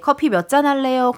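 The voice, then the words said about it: Impression of Choi Jun. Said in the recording (Korean): “최준 성대모사를 ... 몇 퍼센트 비슷한 것 같은지 ... 3%예요, 3%. 3%요. ... 2.8%요.”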